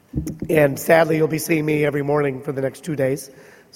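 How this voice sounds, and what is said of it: Impaired, allergy-affected speaking voice. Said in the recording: “apologize for my voice, because allergies in Seattle suck”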